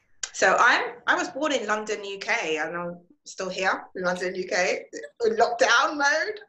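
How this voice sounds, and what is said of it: Speaks with a noticeable accent. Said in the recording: “I hear your accent.”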